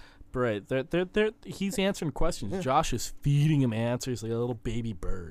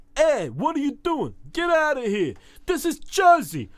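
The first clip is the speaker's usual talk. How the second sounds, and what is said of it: Put-on New Jersey accent. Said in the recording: “Jersey accents always crack me up.”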